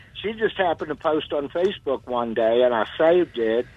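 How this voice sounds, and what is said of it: New Orleans accent. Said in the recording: “New Orleans, because that's where I was born. ... I could hear that accent.”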